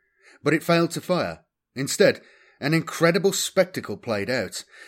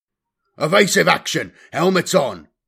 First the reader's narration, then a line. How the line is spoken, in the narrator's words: Magron barked